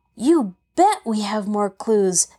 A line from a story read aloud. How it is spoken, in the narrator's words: exclaimed Frank eagerly